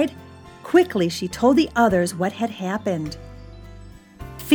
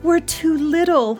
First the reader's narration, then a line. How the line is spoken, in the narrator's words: he moaned